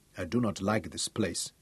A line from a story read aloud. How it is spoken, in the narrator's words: Tungata told Craig softly